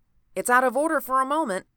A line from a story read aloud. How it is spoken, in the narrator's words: he cried